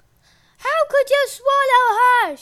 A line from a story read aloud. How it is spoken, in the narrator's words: shouted